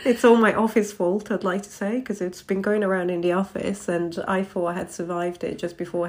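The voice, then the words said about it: Voice congested from a cold. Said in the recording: “I have a cold, as people might hear”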